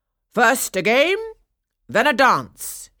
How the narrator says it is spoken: he called out

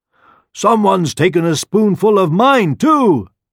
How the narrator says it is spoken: exclaimed the mother bear

